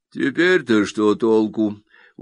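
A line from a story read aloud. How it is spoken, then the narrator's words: Gloomy man's voice. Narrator (Russian): уныло говорит человек в саване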